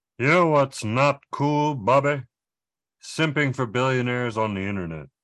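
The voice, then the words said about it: Hank Hill impression. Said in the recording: “do a Hank Hill impersonation, but I knew ... could”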